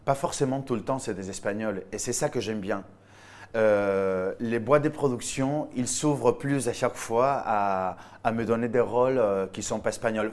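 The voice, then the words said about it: Spanish accent speaking French. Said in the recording (French): “il y a mon accent... cet accent... mon accent me trahit”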